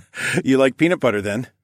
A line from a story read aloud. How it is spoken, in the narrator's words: I laughed